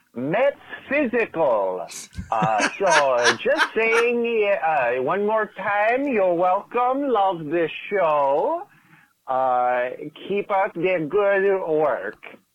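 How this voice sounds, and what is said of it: Put-on Brazilian accent. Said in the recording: “are we sure that wasn't Borat? ... Really great Brazilian accent.”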